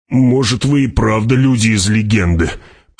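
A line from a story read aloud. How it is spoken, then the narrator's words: Grumbling. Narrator (Russian): проворчал Стилгер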